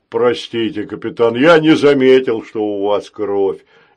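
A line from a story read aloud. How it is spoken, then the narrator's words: Guilty deep robot voice. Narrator (Russian): виновато пробасил робот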